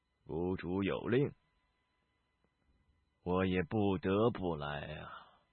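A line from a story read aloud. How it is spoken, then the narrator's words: Faint, calm smile. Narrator (Chinese): 灰衣老者淡淡一笑道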